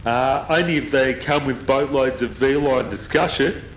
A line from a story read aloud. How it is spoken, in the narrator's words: I said loudly and laughed like I hated my own palm juice